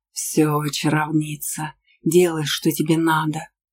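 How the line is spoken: Affectionate grumble. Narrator (Russian): Проворчал ласково Аргар

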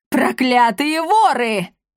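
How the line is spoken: Furious woman's roar. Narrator (Russian): взревела она так, что все вокруг содрогнулись

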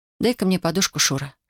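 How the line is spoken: Whisper. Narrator (Russian): шепнула она

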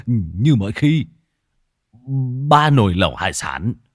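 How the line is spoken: Startled stammering. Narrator (Vietnamese): Lão Thọt giật mình, lắp bắp

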